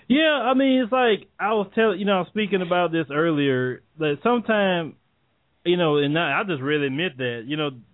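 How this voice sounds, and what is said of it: Thick Southern US drawl. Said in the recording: “the southern drawl like you have ... my accent is so thick”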